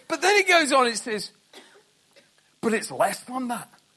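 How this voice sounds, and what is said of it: Poor put-on Scottish accent. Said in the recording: “That's how they do it with their Scottish... It's a dreadful accent, I know. Right, it's the only one I can do.”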